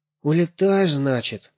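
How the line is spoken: Sighing question. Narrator (Russian): вздохнув, спросил Сережа

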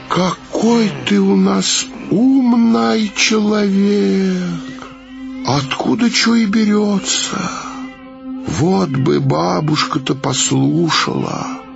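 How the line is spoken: Detached sigh. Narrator (Russian): отстраненно вздохнула

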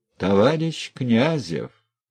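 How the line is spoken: Dry official tone. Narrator (Russian): сухо, казенным голосом заговорил председатель

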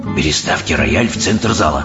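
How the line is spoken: Whispered. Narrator (Russian): прошептал мистер Типс

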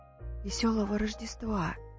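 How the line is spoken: Shy child's whisper. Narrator (Russian): застенчиво прошептал малыш

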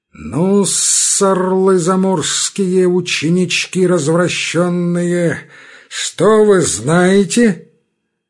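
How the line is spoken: Sing-song through clenched teeth. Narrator (Russian): запустив ногти в рот, начал нараспев и сквозь зубы

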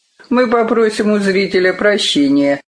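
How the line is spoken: Dry. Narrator (Russian): сухо сказал Карелин

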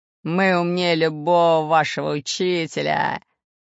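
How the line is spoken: Laughing. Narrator (Russian): засмеялся Буль-Буль

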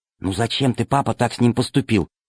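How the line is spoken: Whispered. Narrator (Russian): прошептала Алиса

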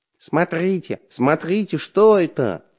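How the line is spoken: Shouting. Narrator (Russian): закричал Бабучка

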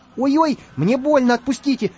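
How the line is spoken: Shouting. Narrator (Russian): закричал Карандаш

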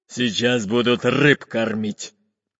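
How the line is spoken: Deep bass voice. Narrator (Russian): пробасил пират Буль-Буль

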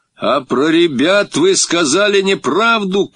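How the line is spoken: Shout. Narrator (Russian): крикнул я

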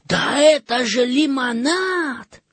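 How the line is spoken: Surprised exclamation. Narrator (Russian): Жан удивленно воскликнул

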